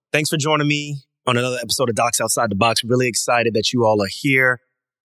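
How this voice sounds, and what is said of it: Nasal, congested voice. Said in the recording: “I'm just under the weather. I caught a cold ... I'm a little bit under the weather, and obviously my voice is going to sound a little bit nasally”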